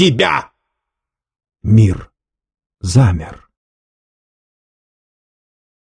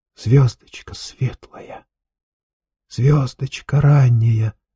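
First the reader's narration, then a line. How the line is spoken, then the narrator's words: Whisper. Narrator (Russian): зашептал он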